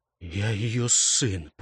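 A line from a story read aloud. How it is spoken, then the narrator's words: Whisper. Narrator (Russian): прошептал он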